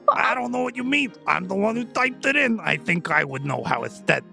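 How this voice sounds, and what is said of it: Hard-to-understand put-on character accent. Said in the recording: “his accent is worse than yours. I can barely understand you. You think I can understand him? ... he definitely is not pronouncing that right”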